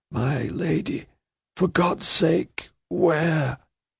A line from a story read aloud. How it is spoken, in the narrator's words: makes an imploring moan